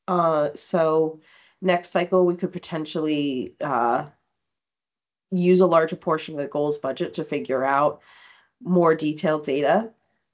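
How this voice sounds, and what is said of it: Hoarse voice recovering from cold. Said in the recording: “I do apologize for my voice. I had a cold over the weekend, so it's still coming back to me.”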